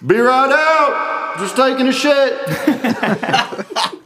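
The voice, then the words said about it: Impression of man in public bathroom. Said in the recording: “this is my impression of a guy in the public bathroom ... it's a crowded public bathroom”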